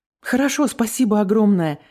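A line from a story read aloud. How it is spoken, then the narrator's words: Exclaim. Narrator (Russian): воскликнула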